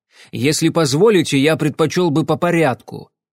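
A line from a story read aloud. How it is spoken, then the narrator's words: Irritated. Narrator (Russian): раздраженно сказал Купер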